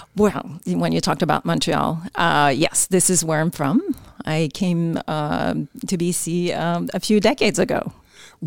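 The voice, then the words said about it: Quebec French-Canadian accent. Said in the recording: “that accent means you're from Quebec”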